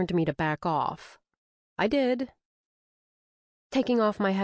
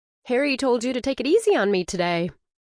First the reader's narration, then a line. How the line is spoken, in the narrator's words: I noted, trying to keep my voice friendly